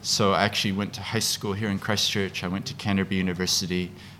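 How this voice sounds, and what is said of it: Speaks with a noticeable accent. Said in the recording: “as you can hear, I have an accent”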